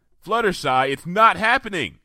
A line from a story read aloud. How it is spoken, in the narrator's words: I shouted